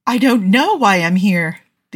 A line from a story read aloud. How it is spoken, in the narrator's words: the young woman said, though she was laughing